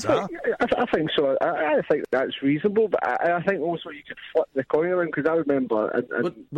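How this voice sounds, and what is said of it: Noticeable regional accent. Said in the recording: “You man alive, your accent!”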